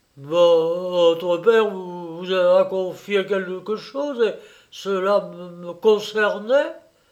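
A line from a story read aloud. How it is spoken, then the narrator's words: Terrified stammer. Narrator (French): balbutia le marchand de biens, qu'une vague terreur envahissait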